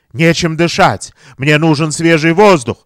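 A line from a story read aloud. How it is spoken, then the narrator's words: Exclaiming. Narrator (Russian): воскликнул он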